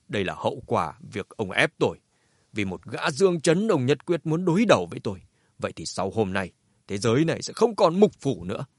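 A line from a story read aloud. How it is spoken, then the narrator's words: Cold. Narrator (Vietnamese): Thành chủ Hoài Thành lạnh lùng nói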